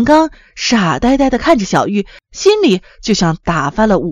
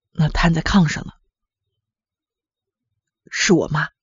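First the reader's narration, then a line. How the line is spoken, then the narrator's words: Murmured. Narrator (Chinese): 黄建刚低下了头，喃喃地说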